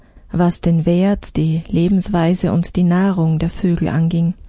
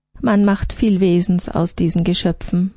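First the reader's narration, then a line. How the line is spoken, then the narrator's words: Plain. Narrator (German): sagte sie zuletzt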